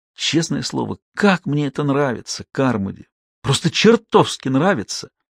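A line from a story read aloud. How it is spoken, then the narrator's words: Whispering. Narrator (Russian): снова зашептал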